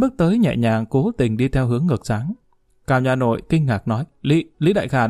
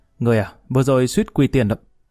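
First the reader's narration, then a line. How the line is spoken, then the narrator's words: Angry speech. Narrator (Vietnamese): Lý Kỳ giận dữ, lại tức giận nhìn Mã Kiều nói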